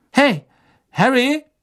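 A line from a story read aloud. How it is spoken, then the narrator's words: Someone calling out. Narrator (German): wie ihn jemand rief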